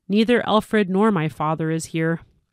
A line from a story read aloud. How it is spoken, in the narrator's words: ended sadly